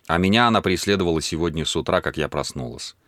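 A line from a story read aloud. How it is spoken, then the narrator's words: Plain. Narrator (Russian): сказала она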